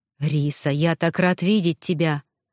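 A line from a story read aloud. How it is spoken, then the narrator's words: Excited breathy. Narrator (Russian): воодушевленно выдохнул мужчина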